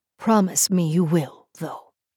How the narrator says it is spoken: he breathed

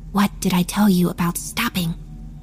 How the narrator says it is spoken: whispers the voice of the sparrow in my ear

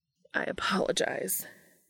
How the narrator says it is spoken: he said in a strained tone

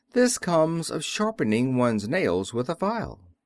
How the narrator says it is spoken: an old man, till he cut off his thumbs and said calmly

